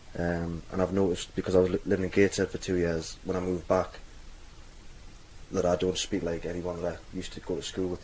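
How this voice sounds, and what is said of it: Mild Geordie accent. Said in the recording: “I've got what I would describe as a diluted Geordie accent ... they all think I sound Geordie”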